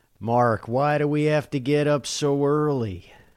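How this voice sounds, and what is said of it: Jack Nicholson impression. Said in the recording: “you got a better accent than me for Jack?”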